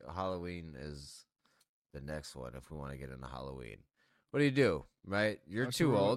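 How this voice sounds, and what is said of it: Slightly slurred, tipsy speech. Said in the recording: “I apologize if I'm slurring words ... some alcohol involved”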